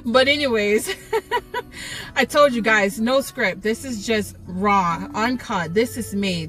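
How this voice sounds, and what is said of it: New York-type American accent. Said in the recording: “maybe you can hear my accent. I don't want to say I'm from New York”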